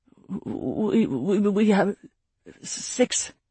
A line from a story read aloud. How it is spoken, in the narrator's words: Rayad stuttered